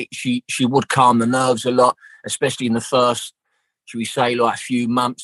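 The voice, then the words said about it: South East London accent. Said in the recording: “I'm from South East London. So like our accent was very, very similar”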